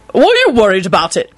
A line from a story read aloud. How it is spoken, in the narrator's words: Quentin barked out